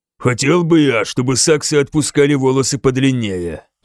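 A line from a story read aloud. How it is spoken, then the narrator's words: Grumbling. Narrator (Russian): проворчал он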